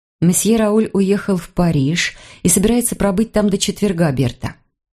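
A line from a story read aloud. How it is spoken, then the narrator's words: Calm. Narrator (Russian): спокойно сказала я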